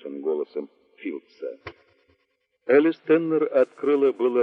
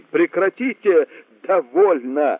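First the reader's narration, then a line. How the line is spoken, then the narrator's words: Laughing to tears. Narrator (Russian): Она так смеялась, что слезы текли ручьем по ее лицу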